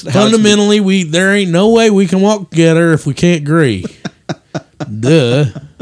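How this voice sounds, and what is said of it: Put-on hillbilly accent. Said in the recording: “my hillbilly hickish voice”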